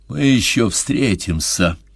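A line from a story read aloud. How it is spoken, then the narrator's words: Muffled threat. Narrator (Russian): глухо пригрозил Седой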